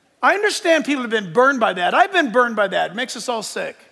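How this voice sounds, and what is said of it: Usual voice. Nothing is said of it.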